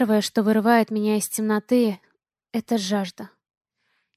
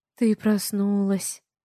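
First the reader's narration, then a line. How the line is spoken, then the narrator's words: Tender whisper. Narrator (Russian): ласково шепчет она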